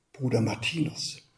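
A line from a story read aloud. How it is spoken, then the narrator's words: Calm whisper. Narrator (German): flüsterte der Subprior ruhig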